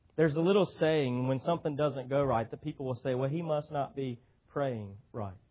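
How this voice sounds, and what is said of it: Non-local regional accent. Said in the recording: “you can probably tell from my speech, I'm not from my accent, I'm not from this area”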